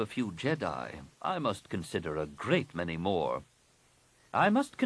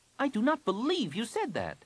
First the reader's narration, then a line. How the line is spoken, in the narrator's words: Jaina snapped